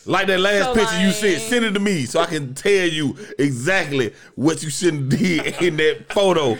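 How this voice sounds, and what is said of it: Imitates another person's voice. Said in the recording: “In my Drake voice.”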